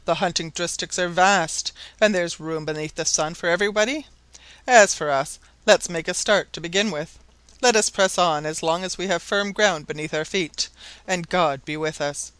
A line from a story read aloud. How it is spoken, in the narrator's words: exclaimed the lieutenant